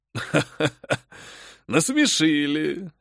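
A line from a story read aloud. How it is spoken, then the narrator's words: Man's light laugh. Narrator (Russian): легко рассмеялся мужчина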